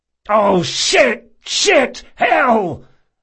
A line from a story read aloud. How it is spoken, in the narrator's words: Locke shouted, bending helplessly over the dying alchemist